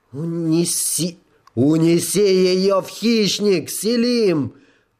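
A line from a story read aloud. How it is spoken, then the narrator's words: Booming over loudspeaker. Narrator (Russian): прогремел голос Эйдена через внешний громкоговоритель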